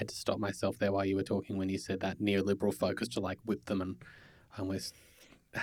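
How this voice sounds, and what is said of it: Usual voice. Nothing is said of it.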